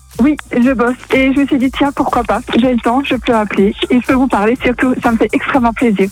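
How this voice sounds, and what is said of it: Alsatian French accent. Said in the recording (French): “t'es alsacienne ... J'ai reconnu un peu l'accent ... c'est vrai qu'on l'entend assez bien”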